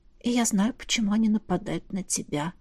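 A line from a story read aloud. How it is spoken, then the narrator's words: Whisper. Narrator (Russian): добавила я шепотом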